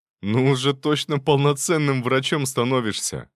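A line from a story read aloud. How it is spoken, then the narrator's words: Laughing. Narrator (Russian): рассмеялся он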